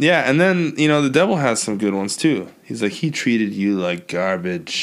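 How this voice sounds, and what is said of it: Usual voice. Nothing is said of it.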